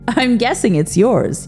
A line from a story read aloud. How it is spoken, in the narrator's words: said over his shoulder with a laugh